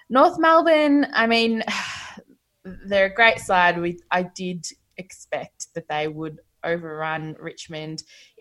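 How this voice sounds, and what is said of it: Hoarse, fading voice. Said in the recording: “Oh, I'm losing my voice.”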